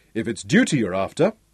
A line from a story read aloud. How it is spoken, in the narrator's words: Ralph chuckled